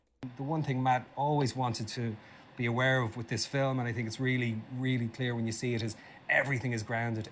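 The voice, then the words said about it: Natural accent, very fast speech. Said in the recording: “I love hearing Colin Farrell talk because, you know, the real accent comes out. He talks really, really fast.”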